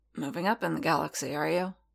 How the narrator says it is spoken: Paz grunted

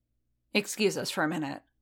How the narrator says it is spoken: Din said curtly

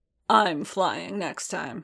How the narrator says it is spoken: growled

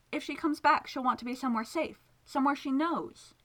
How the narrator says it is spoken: he pleaded

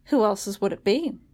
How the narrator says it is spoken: Lady Pole asked dryly

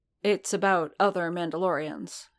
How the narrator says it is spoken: Din said evenly

